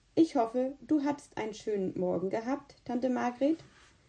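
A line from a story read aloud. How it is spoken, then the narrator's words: Plain. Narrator (German): sagte Philipp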